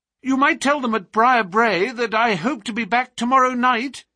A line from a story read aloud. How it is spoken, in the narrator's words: cried Phelps